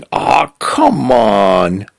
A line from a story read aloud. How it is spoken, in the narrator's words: Cal groaning